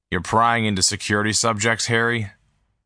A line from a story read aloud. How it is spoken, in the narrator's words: Don said coldly